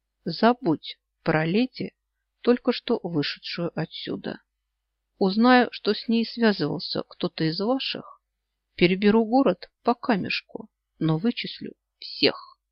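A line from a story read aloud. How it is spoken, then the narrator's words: Quiet. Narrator (Russian): тихо произнес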